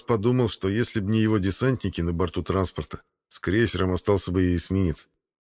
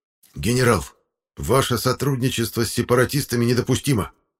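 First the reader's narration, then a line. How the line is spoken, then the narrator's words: Snakelike hiss. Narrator (Russian): за спиной змеиные шипения майора СБ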